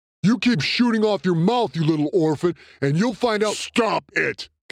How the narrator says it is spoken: Kimberlin snapped

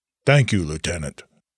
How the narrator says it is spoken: Soren coolly acknowledged

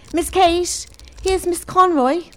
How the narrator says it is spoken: Lily called out

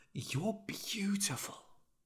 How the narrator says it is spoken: he whispered

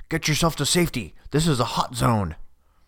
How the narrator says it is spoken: the shouting

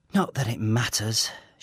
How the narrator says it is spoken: sighs

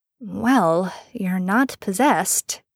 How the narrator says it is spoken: Sam mumbled

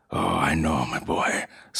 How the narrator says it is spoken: Stephen whispered

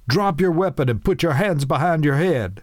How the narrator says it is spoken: Nighthawk yelled

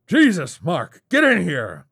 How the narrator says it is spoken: his uncle growled

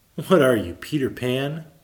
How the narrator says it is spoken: Malcolm laughed

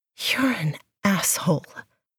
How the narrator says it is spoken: she pants

